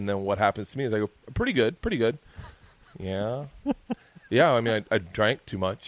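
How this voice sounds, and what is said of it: Usual voice. Nothing is said of it.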